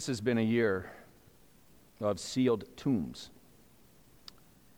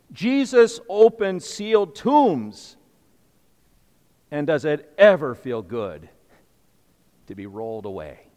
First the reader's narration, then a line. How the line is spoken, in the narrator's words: it would shout